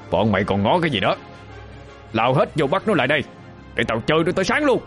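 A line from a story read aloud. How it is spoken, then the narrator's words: Loud command. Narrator (Vietnamese): thằng Khánh Sẹo ... lớn tiếng ra lệnh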